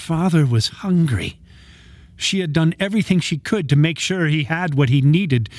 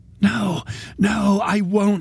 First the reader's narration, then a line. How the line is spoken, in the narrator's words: rasped